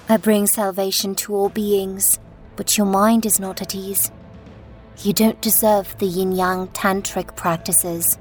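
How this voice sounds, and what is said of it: Low, quiet voice. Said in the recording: “she said in a low voice”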